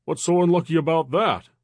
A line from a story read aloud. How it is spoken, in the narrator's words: Roy exclaimed, baffled